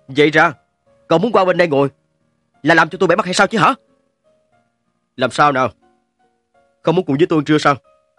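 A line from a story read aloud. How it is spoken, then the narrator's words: Displeased loud shout. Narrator (Vietnamese): Mạch Quai nhếch môi cười bất mãn, cao giọng quát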